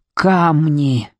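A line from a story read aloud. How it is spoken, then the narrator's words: Choked wheeze, chest crushed. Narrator (Russian): прохрипел он, когда пальцы Руда Рожденного сдавили его грудь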